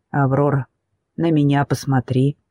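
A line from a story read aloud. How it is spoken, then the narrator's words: Firm yet gentle. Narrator (Russian): говорит твердо и мягко одновременно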